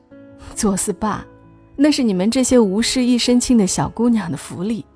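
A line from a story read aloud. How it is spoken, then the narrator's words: Wry laugh. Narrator (Chinese): 李璇苦笑一声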